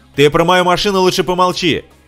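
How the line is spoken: Shouting. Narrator (Russian): закричал Джек

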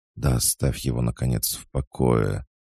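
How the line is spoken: Whispered. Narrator (Russian): Она шептала

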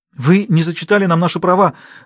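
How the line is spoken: Tearful mumble. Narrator (Russian): сквозь слезы пробормотала Каролин

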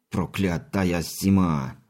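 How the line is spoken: Cursing through teeth. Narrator (Russian): ругнулся сквозь зубы часовой

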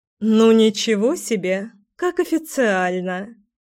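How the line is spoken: Laughing. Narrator (Russian): Рассмеялась тетя Вита

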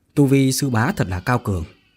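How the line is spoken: Calm normal question. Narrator (Vietnamese): Phương Tử Vũ từ từ trở lại bình thường mà hỏi

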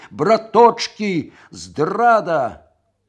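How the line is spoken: Roaring like alarmed bear. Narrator (Belarusian): зароў нібы мядзведзь стрывожаны з бярлогі

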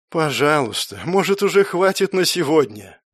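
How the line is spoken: Barely audible moan. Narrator (Russian): простонал он едва слышно

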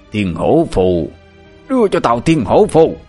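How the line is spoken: Old man yelling while running. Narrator (Vietnamese): Vừa chạy, lão vừa gào lên

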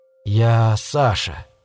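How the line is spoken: Quiet, questioning. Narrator (Russian): тихо произнес я словно спрашивая себя

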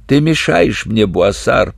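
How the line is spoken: Hoarse wheeze. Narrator (Russian): прохрипел из травы капрал

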